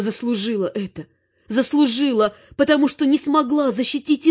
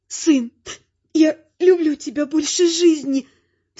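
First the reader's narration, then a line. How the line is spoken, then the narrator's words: Sobbing woman. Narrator (Russian): всхлипывала она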